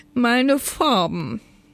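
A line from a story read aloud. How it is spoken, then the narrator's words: Wailing elf. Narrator (German): jammerte der Blumenelf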